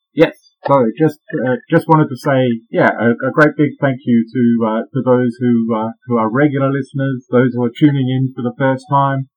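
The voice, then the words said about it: Australian accent. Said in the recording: “Bit of an Aussie accent coming at you.”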